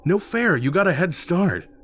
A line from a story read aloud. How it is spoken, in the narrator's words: Rick whined